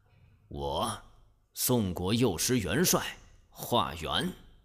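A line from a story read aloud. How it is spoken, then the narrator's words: Low reply. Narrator (Chinese): 化缘低声回答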